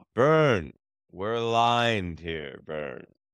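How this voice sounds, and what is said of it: Imitates another person's voice. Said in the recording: “I'll pretend like I'm Bijon ... I have to work on my Bijon impersonation.”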